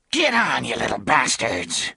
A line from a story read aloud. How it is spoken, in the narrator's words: snarled